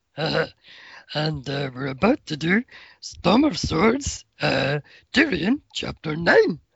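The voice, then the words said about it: Cookie Monster voice impression. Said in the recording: “I got my Cookie Monster voice on. ... I can't stop doing the voice now.”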